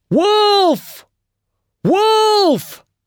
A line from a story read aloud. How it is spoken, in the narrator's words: at the top of his voice